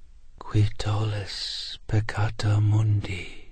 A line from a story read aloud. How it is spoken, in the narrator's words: the president whispered